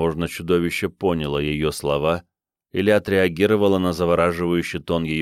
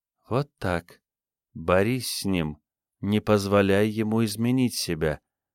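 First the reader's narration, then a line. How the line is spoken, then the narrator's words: Insistent whisper. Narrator (Russian): настойчиво прошептала Диана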